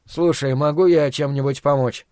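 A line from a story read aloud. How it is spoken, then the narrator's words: Plain. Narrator (Russian): спросил Стью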